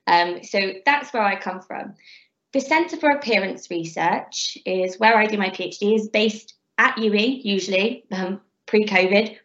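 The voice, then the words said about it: Bristolian English accent. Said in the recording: “I have quite a Bristolian accent.”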